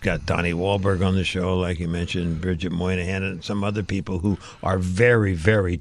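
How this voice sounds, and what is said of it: Usual voice. Nothing is said of it.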